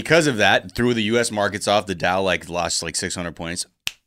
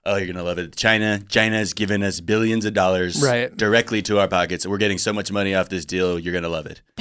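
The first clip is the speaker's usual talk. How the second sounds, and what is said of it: Donald Trump impression. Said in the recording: “That was ... doing a Trump impression ... That's how good ... is Trump impression”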